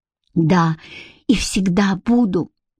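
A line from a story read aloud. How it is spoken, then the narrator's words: Whispered. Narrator (Russian): прошептал он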